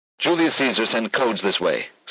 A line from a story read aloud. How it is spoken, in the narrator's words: Susan blurted